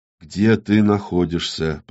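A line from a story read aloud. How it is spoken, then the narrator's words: Whispered. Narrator (Russian): прошептал Иннокентий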